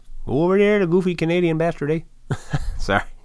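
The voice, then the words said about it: Bad put-on Canadian accent. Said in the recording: “That's a terrible Canadian accent.”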